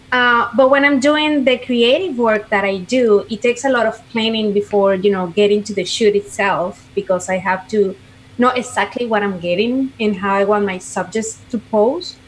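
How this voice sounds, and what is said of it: Venezuelan accent. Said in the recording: “clearly that's not an Orlando, Florida accent ... I'm from Venezuela.”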